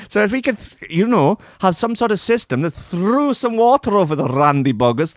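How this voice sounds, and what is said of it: Bad put-on Welsh accent. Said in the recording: “this is the worst Welsh accent I've ever done.”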